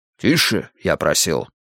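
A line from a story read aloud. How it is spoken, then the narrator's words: Commanding reminder. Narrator (Russian): напомнил Грейтхаус повелительным голосом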